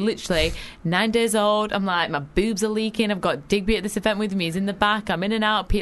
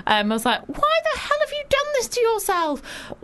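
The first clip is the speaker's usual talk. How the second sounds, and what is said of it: Very high-pitched voice. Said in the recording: “That very high voice. ... She went into a very high voice and nearly smashed my glass.”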